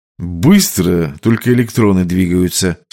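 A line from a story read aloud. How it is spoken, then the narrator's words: Calm. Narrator (Russian): спокойно ответил высокий мастер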